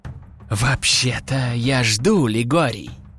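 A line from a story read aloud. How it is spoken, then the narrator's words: Hissing from overhead. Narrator (Russian): Послышалось шипение прямо над головой начальника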